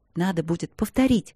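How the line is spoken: Whisper. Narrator (Russian): сказала она шепотом

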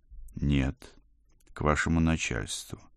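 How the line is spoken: Quiet reply. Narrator (Russian): тихо ответил я

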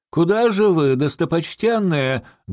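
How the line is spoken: Loud shout. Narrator (Russian): громко крикнул министр

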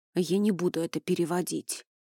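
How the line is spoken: Gruff mutter. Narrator (Russian): буркнул он

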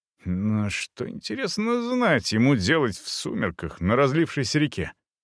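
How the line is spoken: Muttering under breath. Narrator (Russian): бормотал я себе под нос

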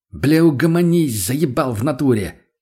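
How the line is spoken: Barked. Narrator (Russian): Не выдержал и рявкнул на товарища я

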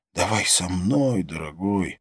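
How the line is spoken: Hoarse into ear. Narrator (Russian): хрипела в ухо

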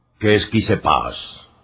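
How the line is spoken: Deep hollow question. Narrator (Spanish): preguntó Bernet con voz cavernosa

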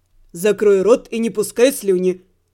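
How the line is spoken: Rough interrupting voice. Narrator (Russian): Грубо ворвался голос Кита

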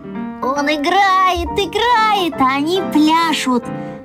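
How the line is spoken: Joyful shout. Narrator (Russian): радостно закричал я

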